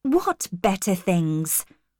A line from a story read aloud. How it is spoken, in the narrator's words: said, a little angrily